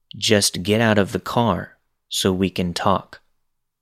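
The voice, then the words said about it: Flat monotone delivery. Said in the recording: “He says flatly ... in that monotone voice”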